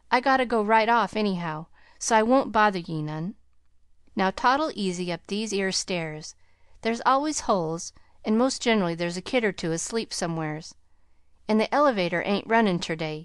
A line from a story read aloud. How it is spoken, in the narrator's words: he jibed, cheerfully